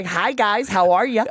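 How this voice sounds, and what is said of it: Put-on American accent. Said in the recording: “With an American accent.”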